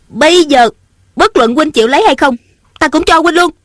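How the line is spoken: Angry. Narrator (Vietnamese): Ung Thanh giận dữ nói

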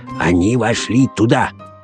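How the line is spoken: Quiet. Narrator (Russian): тихо произнес сыщик

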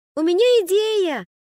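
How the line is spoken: Small voice shouting. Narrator (Russian): крикнул чей-то голосок

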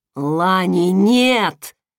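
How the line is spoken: King's growl. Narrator (Russian): прорычал король

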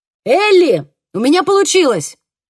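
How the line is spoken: Shouted. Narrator (Russian): крикнул Хольден

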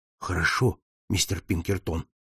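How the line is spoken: Low voice. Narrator (Russian): ответил он вполголоса

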